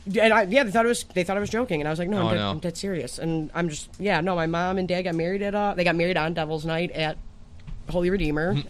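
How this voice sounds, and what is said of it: Detroit accent. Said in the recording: “I love your Detroit accent.”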